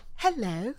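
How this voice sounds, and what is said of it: Put-on posh British accent. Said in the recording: “my faux British accent. ... So you have a posh British accent. ... It's not faux. It's posh. It's very, very posh.”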